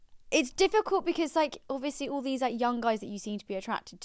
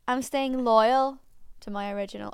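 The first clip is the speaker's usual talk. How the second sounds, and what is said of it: Put-on accent. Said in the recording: “I don't know why I'm putting on that accent. She doesn't have that accent.”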